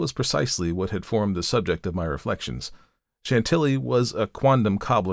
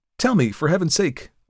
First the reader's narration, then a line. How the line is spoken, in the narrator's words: I exclaimed